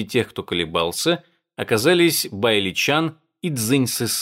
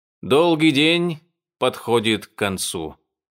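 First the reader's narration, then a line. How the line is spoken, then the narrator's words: Deep sigh, then speaking. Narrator (Russian): Хуан Минь глубоко вздохнул и снова произнес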